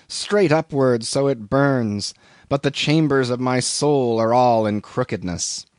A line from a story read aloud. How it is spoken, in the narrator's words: groans